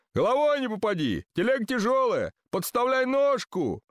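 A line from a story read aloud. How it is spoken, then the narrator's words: Shouted. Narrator (Russian): кричали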